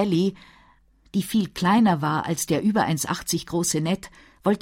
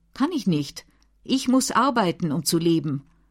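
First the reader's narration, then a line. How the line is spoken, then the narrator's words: Plain. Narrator (German): sagte Sally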